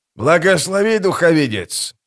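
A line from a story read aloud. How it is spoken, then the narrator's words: Growl, thick rough accent. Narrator (Russian): прорычал он с самым грубым гральским акцентом, который только мог изобразить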